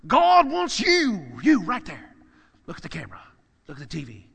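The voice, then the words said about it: Televangelist preacher voice. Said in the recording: “in my best televangelist preacher voice”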